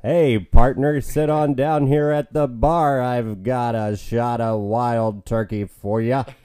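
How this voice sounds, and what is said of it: Imitates another person's voice. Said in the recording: “That's two John Wayne. That's not Jack Burton. That's John Wayne. ... does a good job of covering John Wayne and impersonation”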